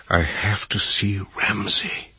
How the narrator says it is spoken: he whispered

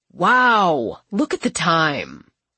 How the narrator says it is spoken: he says sarcastically

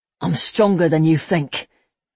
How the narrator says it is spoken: Jack grumbled

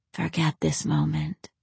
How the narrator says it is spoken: she breathed across his lips

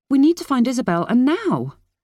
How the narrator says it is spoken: Kira cried

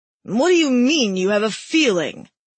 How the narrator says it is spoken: Timber roared

